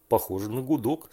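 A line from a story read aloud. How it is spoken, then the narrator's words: Plain. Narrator (Russian): сказал Женя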